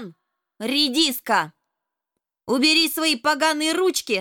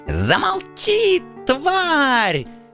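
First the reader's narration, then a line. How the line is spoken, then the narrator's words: Spluttering shriek. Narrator (Russian): Брызгая слюной, завизжал принц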